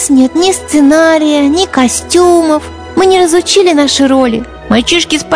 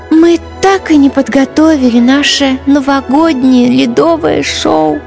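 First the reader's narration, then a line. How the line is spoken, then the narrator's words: Heavy sigh. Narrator (Russian): тяжело вздохнула Ангелина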